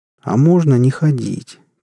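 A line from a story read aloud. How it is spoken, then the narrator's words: Sad question. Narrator (Russian): печально спросил топор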